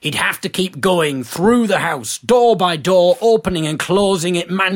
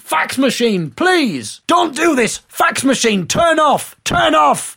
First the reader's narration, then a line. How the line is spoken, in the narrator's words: He began to go crazy and started shouting